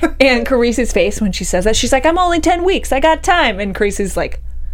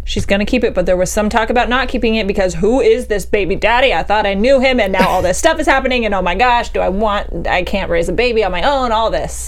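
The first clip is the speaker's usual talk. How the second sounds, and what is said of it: Southern-sounding accent. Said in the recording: “you sounded southern.”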